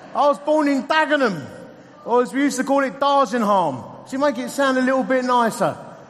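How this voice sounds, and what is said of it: Essex English accent. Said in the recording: “As you can tell from my accent, I'm an Essex boy.”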